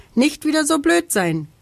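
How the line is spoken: Calling down from above. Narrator (German): ruft er vom Baum herab

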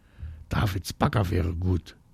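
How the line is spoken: Very quiet. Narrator (German): sagt Marie ganz leise

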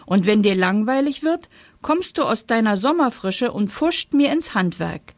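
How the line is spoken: Indignant calling out. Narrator (German): rief der Herbst empört

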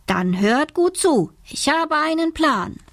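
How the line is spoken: Calling out. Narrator (German): Isa ruft

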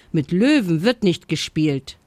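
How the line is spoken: Stern mother. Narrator (German): sagte seine Mutter streng

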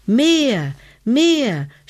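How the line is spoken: Shouted. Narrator (German): schrie Hebelmann

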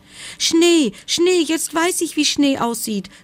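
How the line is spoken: Joyful cry. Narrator (German): rief der Igel, und vor lauter Freude

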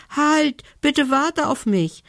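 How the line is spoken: Elf calling after. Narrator (German): rief ihm die Elfe hinterher

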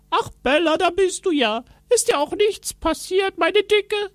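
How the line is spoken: Called out. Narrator (German): rief er

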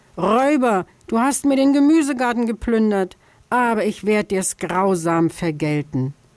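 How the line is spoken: Shouting. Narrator (German): schrie

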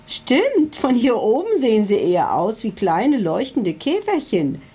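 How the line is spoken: Giggling. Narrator (German): kicherte sein Berater Hubert Schlauenstein

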